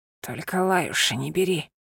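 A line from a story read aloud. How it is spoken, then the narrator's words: Weak whisper. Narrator (Russian): слабо прошептал он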